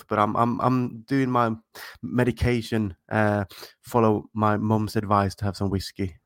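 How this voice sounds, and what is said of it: Congested, blocked-nose voice. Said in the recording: “my voice sounds a little bit different than people who are listening are used to ... my nose is a little bit blocked”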